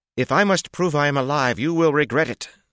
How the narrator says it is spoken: Siona denounced loudly in crisp Kyrianan accents, a little more heated than her face suggested

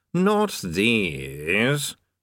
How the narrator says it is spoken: sneered Vasnago

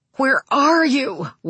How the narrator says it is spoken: Wayne cried

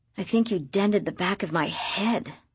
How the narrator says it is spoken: I whispered

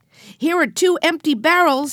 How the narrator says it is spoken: he shouted

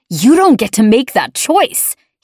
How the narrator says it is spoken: he shouted

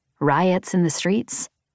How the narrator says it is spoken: I sighed

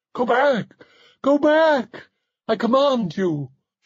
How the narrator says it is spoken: she cried

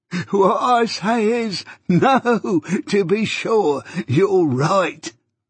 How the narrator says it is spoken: pursued the old man, again laughing heartily

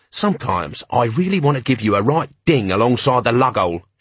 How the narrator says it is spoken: she growled

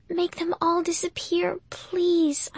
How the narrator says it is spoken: I whispered

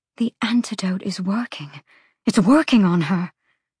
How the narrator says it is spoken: Hypaxia murmured

